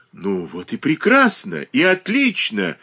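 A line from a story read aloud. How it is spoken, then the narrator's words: Exclaiming in unison. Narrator (Russian): воскликнули в один голос Александр Македонский и Иван Воин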